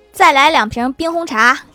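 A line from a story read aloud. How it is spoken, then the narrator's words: Calling out. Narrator (Chinese): 郭大侠 喊了一声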